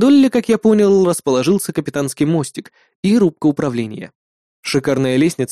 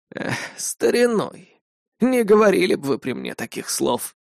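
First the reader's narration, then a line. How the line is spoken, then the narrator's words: Chuckling. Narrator (Russian): хохотнул Владимир Павлович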